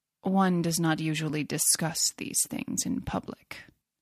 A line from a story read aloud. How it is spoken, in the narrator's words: said Tobermory coldly